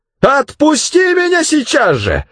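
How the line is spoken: Yelling. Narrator (Russian): заорала дымка

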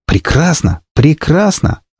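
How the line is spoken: Joyful. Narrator (Russian): радостно сказал я

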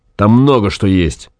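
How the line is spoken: Angry. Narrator (Russian): сказал Гай зло

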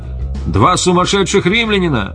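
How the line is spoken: Warning shout. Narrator (Russian): Кто-то из всадников предупреждающе крикнул

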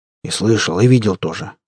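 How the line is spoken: Grumbled under breath. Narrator (Russian): буркнул под нос Захар

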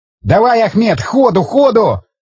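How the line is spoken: Yelling. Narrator (Russian): заорал Колесников механику-водителю

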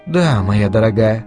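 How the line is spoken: Soft and gentle. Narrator (Russian): мягко произнесла Делия

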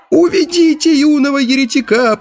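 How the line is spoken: Shrill squeal, elderly. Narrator (Russian): пронзительно взвизгнул старейший песнопевец

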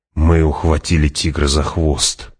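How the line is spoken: Whispering. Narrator (Russian): прошептал Пауль

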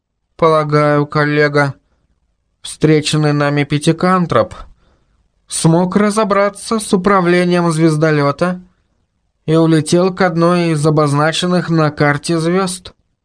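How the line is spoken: Dejected, downcast voice. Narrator (Russian): сообщил Мурзик упавшим голосом

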